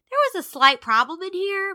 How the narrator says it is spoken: Mariam said in a conciliatory tone

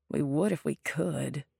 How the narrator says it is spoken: Lydia muttered

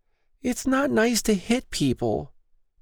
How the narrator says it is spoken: Noelle whimpered, fear welling

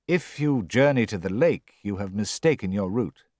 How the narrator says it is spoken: said Hayward haughtily

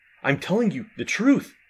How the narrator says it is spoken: he stammered

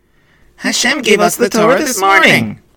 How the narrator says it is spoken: they shouted together happily

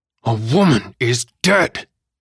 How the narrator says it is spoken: Davis roared

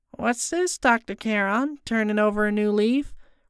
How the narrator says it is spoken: Rebecca called out

